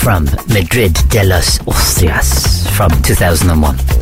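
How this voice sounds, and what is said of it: Accented English. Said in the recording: “you like my accent?”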